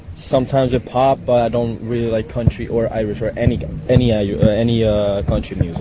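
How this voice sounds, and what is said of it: Italian accent. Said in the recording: “I noticed the lovely accent ... I'm from Italy.”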